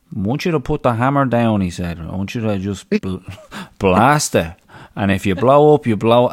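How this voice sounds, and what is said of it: Impression of coach Vinnie Mulvey. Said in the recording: “not a bad Vinnie Mulvey impression”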